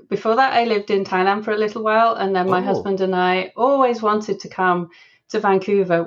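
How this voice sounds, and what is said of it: English accent from Leeds. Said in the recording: “as you can tell from my accent, I grew up in England. So I'm originally from Leeds in the UK.”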